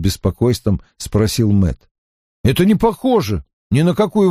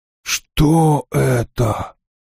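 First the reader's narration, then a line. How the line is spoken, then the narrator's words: Hoarse, rough question. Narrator (Russian): спросил он и был потрясен хриплой грубостью своего голоса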